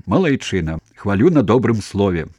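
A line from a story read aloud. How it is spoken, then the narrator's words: Smiling shout. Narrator (Belarusian): усміхнуўся вячка і крыкнуў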